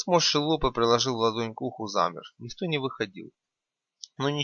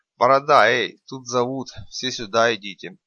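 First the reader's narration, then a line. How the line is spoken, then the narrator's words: Lazy deep bass. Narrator (Russian): Стриженный лениво пробасил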